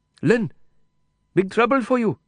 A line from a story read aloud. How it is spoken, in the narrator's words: he said quickly